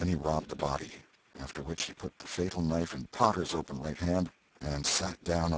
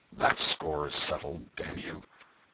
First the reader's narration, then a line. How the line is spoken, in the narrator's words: The half-breed muttered